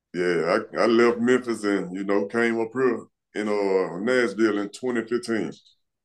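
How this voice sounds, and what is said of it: Memphis accent. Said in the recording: “I'm trying to place your accent. ... I grew up in Memphis.”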